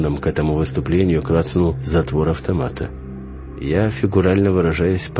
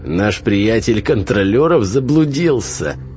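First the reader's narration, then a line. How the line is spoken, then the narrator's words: Loud unpleasant guffawing. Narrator (Russian): Лицо его утратило злобность, и теперь он просто неприятно и громко ржал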